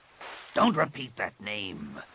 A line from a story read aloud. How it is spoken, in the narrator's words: Rapung snarled